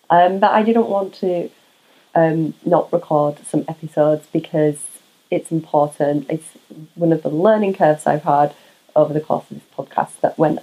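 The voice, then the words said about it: Quiet, raspy voice. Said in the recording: “if I'm sounding a little quiet or raspy on this episode, it's because I'm currently recovering from COVID”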